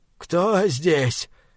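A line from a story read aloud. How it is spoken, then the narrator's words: Old man's trembling voice. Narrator (Russian): дрожащим голосом спросил старик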